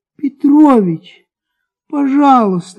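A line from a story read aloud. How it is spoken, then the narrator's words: Pleading. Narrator (Russian): говорил Акакий Акакич умоляющим голосом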